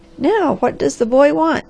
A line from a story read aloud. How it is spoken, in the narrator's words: laughed a white-haired old woman